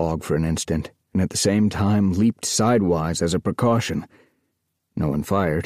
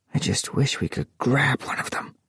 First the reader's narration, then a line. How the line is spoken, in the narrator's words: he whispered